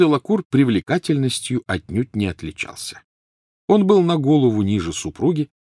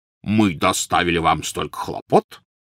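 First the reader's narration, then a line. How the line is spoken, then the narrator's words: Resonant deep bass. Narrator (Russian): звучным басом произнес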